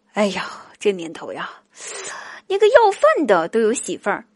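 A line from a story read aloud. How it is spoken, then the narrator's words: Sudden sighing exclamation. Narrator (Chinese): 我表弟突然感叹道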